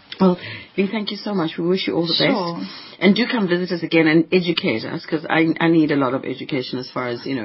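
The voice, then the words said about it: Hoarse, croaky voice. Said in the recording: “I'm sorry, I've got a frog in my throat.”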